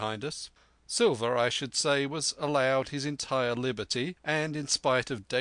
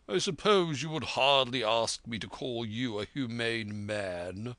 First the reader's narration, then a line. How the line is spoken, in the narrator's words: returned the doctor with a sneer